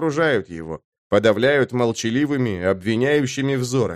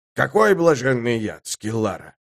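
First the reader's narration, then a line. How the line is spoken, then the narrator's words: Grumbling. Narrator (Russian): Последовало новое ворчание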